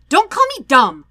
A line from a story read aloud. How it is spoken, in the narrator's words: Sokka snaps